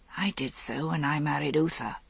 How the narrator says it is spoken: Igraine murmured

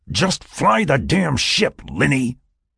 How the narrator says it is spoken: Jack snapped, cutting her off mid-sentence

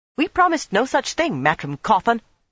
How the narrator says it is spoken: Nynaeve snapped

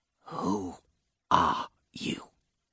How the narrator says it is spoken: whispered

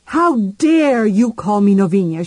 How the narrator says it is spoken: she shouted

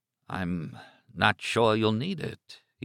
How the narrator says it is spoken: said in a low, unsteady voice

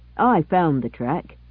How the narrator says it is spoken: he said firmly

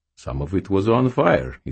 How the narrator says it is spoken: he said cheerfully

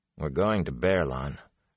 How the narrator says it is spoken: Rand said sleepily

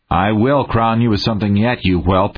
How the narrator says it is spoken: Haynes snorted

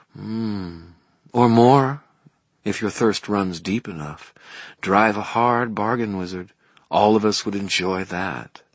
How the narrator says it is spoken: Mav shifted, a slow, sensual motion of her hips and back, and murmured

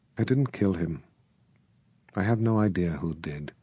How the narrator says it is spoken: Very quietly, she said

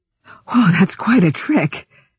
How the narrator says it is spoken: she gasped

